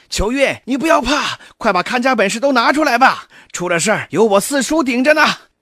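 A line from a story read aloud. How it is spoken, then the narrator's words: Anxious shout. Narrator (Chinese): 急了，对着秋月就喊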